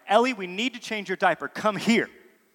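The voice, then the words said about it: Stern commanding parental voice. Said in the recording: “That's my dad voice”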